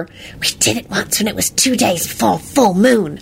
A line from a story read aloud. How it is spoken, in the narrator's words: in a smug voice to Victor